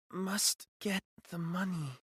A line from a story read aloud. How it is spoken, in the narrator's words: she mumbled